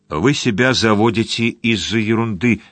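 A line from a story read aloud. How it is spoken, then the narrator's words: Plain. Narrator (Russian): сказала Барбара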